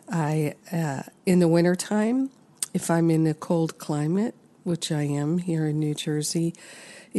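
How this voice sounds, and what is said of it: Congested, sinus-affected voice. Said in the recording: “As you can hear in my voice, I am preventing a sinus infection from taking hold.”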